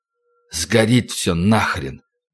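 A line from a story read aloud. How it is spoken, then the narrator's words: Hoarse wheezing men. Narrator (Russian): Немолодые мужчины хрипели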